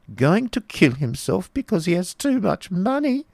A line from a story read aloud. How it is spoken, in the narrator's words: exclaimed the Baron, quite tickled